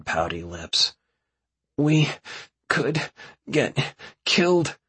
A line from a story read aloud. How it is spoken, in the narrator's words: she grunts out in between gasps of breath